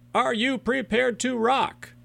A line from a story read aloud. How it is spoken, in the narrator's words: You're going to yell